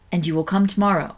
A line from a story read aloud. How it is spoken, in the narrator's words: said Montreville